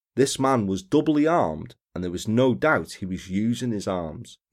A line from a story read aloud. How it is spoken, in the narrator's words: he said